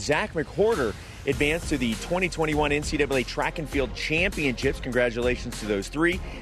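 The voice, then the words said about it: Slightly hoarse, worn voice. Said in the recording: “my voice is a little off today ... I was yelling a lot last night and screaming and cheering, so my voice is a little gone today”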